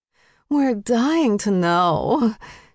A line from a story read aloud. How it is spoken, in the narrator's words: Jane slurred in agreement